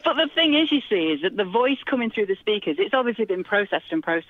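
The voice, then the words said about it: Northern English accent. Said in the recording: “my natural voice, right? I'm from the north of England. I've got a northern accent.”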